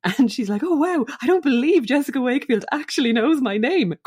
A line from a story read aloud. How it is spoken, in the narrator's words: cried Paula